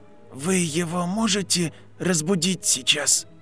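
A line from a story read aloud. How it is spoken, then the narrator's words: Whisper. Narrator (Russian): прошептали губы Гарри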